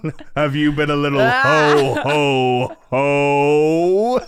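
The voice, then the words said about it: Santa Claus radio voice. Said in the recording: “Radio Santa”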